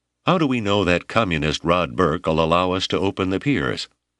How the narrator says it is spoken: Huey Janders asked sharply

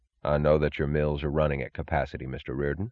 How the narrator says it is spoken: said

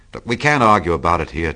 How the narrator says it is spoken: Tom said impatiently, as a truck gave out a cursing whistle behind us

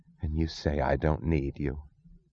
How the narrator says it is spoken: She whispered

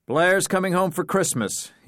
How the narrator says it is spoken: blurted

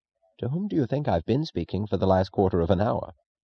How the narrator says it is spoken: Reardon chuckled, in the manner of acknowledging an opponent's round

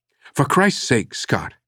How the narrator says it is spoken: she snapped

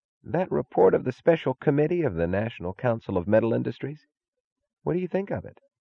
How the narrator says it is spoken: He asked, his voice bleak

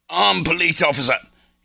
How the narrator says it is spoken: shouted

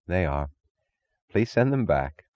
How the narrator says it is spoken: Taggart would sigh

